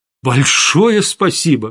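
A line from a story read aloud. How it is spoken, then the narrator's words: Exclaimed. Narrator (Russian): воскликнул я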